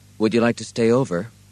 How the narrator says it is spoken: Ed asked evenly

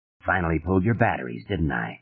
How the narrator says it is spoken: Stark murmured

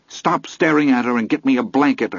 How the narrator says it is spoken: snapped

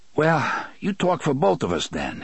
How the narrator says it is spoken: Eddie panted

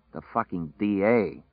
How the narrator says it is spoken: Larry said sulkily

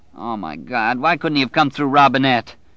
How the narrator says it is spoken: Bobby Terry whined

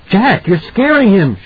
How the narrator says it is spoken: she said, and her voice was high, accusatory

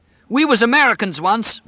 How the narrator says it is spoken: Whitney cried at last

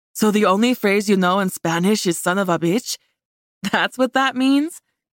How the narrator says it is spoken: Tori laughed

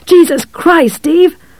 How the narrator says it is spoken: From the cat there came a kind of spitting roar

